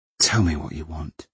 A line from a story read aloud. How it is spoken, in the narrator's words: she said wearily